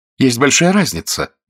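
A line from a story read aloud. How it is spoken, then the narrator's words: Stung exclamation. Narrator (Russian): воскликнула она, уколотая тем возражением, которое Мержи заимствовал из ее же собственных слов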